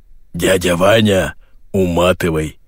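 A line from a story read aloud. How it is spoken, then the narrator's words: Hoarse bass command. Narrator (Russian): приказал хриплый бас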